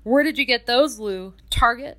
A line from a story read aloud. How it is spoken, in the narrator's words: chuckled one of his colleagues